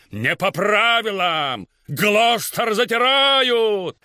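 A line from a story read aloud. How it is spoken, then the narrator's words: Crowd yelling. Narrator (Russian): все вопили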